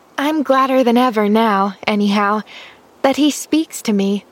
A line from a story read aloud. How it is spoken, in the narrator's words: sighed Pollyanna contentedly